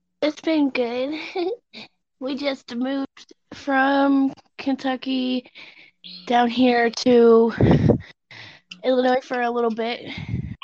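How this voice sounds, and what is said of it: Country twang. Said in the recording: “I can uh, hear the summer twang in your voice ... a good old country girl”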